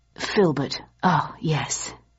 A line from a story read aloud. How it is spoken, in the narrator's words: he murmured